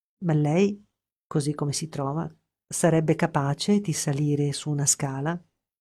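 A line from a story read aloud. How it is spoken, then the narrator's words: Slow question. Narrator (Italian): mi domanda lentamente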